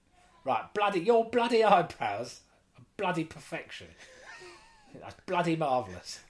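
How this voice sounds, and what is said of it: Alan Sugar impression, drifting toward Michael Caine. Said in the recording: “to do an Alan Sugar impression ... It's quite good. ... It was sort of edging onto Michael Caine, but it's not bad.”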